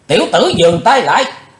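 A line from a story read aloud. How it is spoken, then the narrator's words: Barked shout. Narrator (Vietnamese): Thiếu giáo chủ Âm Ma quát ra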